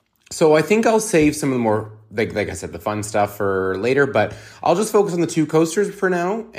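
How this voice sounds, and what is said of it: Defeated, worn-out sounding voice. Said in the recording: “sorry if I sound defeated. ... I am so out of it.”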